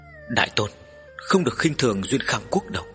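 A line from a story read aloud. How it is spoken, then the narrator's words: Slightly trembling, hurried. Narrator (Vietnamese): Vu Tôn hơi run run vội nói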